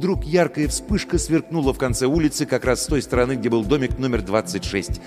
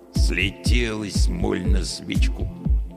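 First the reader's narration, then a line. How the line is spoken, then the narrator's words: Grumbling watchman. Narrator (Russian): проворчал сторож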